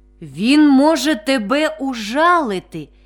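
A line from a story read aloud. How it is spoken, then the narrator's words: Plain. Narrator (Ukrainian): відповів дуб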